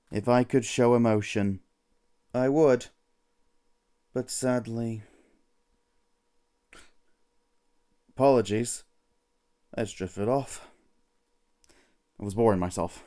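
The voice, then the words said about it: Flat, apathetic monotone voice. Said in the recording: “apathetic reporter Branson Boredom, bringing apathy to every situation, as you can hear from my monotone voice.”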